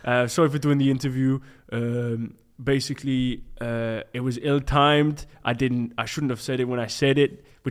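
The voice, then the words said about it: Deep Belgian French-accented voice. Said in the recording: “he's got a really deep voice, hasn't he? It's like quite Belgian, French.”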